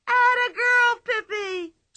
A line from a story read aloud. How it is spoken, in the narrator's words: shrieked Tommy and Anika, so loudly that all the people at the circus heard it